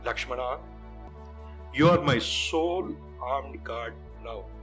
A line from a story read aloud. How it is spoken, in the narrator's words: said Rama